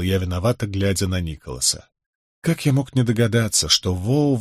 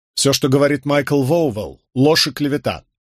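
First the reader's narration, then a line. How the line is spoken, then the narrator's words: Loud address. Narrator (Russian): громко произнес я, обращаясь к солдатам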